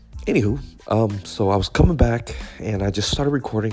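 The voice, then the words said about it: Voice still recovering from illness. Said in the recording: “this cough is really bugging me ... my voice is still not all back yet”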